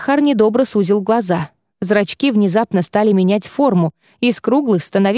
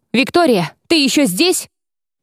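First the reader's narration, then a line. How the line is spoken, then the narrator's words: Barked. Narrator (Russian): вдруг, опомнившись, рявкнул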